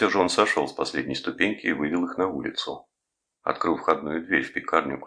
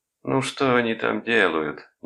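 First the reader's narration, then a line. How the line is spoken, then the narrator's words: Displeased grumbling. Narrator (Russian): недовольно ворчала она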